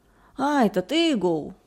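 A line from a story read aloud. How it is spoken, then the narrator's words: Laughing. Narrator (Russian): глухой засмеялся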